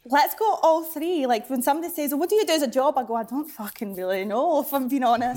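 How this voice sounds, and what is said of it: Slight Scottish accent. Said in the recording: “just a touch of an accent there, just a slight one ... north of the border”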